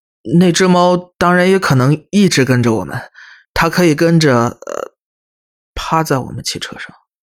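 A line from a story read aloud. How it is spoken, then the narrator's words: Loud, hurried. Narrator (Chinese): 我连忙大声岔开话题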